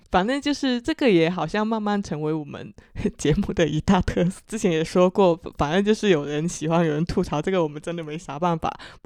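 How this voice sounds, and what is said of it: Chaoshan-accented Mandarin. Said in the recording (Chinese): “自带各自的潮家乡口音。我是潮汕口音”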